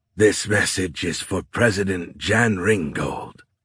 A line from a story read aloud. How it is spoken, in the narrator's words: the chimera said in a gravelly voice